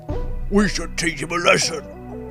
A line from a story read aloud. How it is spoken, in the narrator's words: growled the gobbledygook